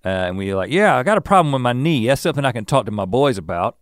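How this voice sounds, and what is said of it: Put-on Southern accent. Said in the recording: “I'm characterizing everyone who's ignorant as with a Southern accent ... those are the kinds of accents that I do”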